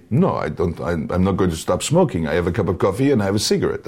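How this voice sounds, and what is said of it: Put-on French accent. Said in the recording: “if I'm teaching someone a French accent, shrug it. Shrug the accent,... there's a sort of shrug in the voice”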